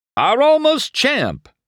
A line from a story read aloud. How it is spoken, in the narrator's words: the other shouted